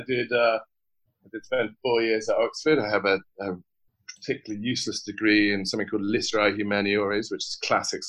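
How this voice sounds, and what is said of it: British accent. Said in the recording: “I'm British. You probably have already picked up on that, so I've got a bit of a funny accent.”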